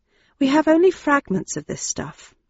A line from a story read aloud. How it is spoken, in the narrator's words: I murmured